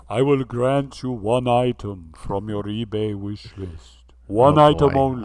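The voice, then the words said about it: Genie character voice with accent. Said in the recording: “How do genies talk? ... It's some sort of accent that you have perfected”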